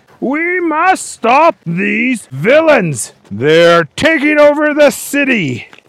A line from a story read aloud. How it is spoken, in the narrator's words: The mayor was on the news yelling